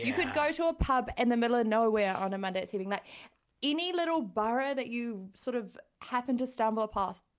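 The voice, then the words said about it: London accent. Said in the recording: “new accent ... This is my London accent.”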